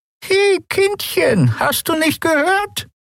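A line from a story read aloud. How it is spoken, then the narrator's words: Croaking old woman. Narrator (German): krächzte die alte Frau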